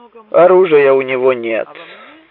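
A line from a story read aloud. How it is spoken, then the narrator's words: Deep voice from behind. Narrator (Russian): пробасил голос за его спиной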